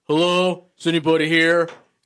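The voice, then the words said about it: Bad impression of Kane. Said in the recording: “he's trying to do an impression of Kane, and it's not great. Yeah. So it's really bad.”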